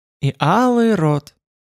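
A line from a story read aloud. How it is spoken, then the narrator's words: Happy prompting voice. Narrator (Russian): подсказала счастливым голосом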